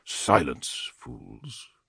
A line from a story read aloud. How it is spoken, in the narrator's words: Telemachon murmured